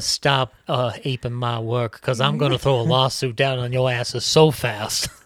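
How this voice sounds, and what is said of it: Impression of Tom Hanks' Walt Disney. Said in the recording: “This is Walt Disney. This is Tom Hanks' Walt Disney”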